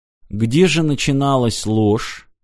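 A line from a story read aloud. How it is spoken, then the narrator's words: Quiet question. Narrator (Russian): тихо спросил Мартин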